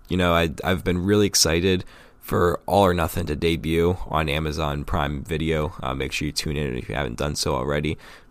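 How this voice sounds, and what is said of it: Raspy voice. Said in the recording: “my voice sounds raspy ... I'm getting over a little bit of a cold.”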